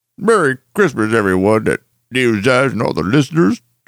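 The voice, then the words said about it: Imitates another person's voice. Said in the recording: “That was strangely accurate. ... that was a good impression of you doing Matt doing George Lucas”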